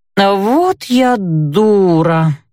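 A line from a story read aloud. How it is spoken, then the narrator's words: Moaning. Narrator (Russian): простонала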